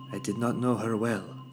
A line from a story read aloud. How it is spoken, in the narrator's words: said the Queen